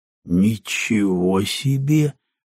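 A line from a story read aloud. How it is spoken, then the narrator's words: Drawl. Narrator (Russian): протянул он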